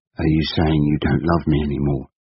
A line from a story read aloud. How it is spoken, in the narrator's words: he asked quite calmly